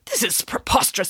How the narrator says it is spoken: sputtered the vice principal

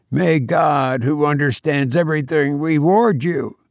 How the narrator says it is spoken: broke off huskily

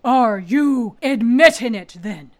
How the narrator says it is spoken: Turlough bellowed

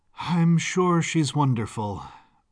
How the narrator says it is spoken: sighed

